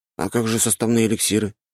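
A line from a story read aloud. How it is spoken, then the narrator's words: Plain. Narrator (Russian): спросил я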